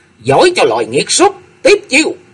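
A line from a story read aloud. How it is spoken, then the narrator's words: Furious shout. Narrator (Vietnamese): Cung Lư Dương Tử nói giận lôi đình quát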